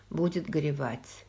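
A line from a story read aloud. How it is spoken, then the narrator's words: Calm. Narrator (Russian): спокойно сказал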